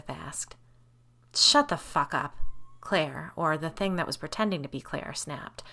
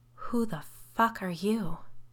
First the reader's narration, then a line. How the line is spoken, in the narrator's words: I whispered